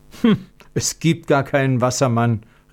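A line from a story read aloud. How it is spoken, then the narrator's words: Calling out. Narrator (German): rief Konrad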